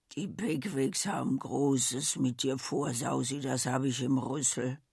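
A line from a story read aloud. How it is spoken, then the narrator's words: Murmured, old speaker. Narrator (German): Nur die alte Rosebud nickte schwer mit ihrem fetten Kopf und raunte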